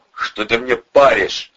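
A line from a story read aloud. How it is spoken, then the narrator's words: Growled. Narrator (Russian): зарычал Ледовой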